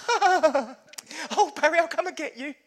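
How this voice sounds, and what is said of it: Poor impression of his mother. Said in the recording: “Sorry, Mum, terrible impression.”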